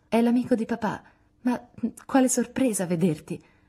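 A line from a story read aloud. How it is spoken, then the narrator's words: Stammered. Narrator (Italian): balbettò Meg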